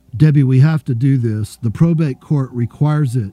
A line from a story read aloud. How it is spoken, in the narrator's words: he finally said